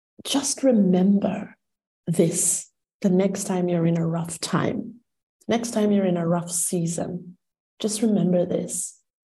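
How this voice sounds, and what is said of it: Crackly, emotional voice. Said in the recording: “my voice is getting a bit crackly because I get emotional”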